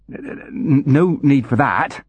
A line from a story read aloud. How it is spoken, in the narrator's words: he stammered